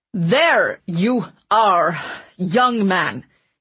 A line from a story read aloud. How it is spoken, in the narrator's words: he barked angrily in a clipped tone